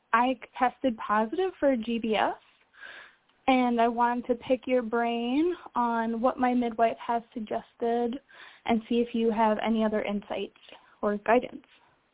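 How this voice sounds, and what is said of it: Emotional, shaky voice. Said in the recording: “I'm a little bit emotional.”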